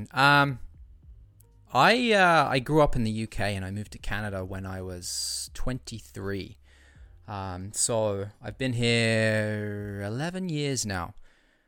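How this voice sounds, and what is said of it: British accent. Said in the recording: “I hear an accent.”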